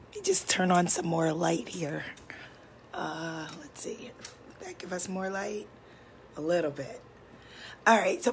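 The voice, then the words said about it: Very hoarse, nearly lost voice. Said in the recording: “my voice is completely gone. My voice has been gone the past few days. It was almost completely gone the other day”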